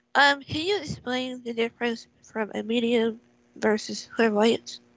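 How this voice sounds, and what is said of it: Congested voice with a cold. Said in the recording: “I have a bit of a cold”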